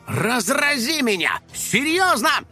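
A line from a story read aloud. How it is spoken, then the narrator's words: Displeased detective shouting. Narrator (Russian): недовольно крикнул детектив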